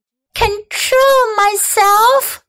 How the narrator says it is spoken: yelled Fern

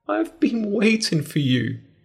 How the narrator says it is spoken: she cried

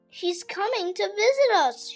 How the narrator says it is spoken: shouted the other

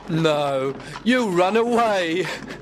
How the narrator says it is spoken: laughed his friend Gregory

